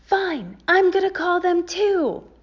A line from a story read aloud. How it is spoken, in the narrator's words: She freaked out on the other side of the door and frantically yelled